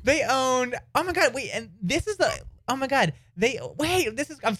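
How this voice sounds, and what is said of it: Excited screaming. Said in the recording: “I'm screaming.”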